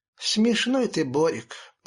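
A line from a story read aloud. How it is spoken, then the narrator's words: Sigh with a smile. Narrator (Russian): вздохнула Мила с улыбкой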